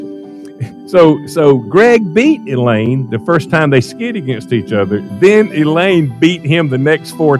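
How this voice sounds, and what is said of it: Noticeable regional accent. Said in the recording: “I know that I've got an accent”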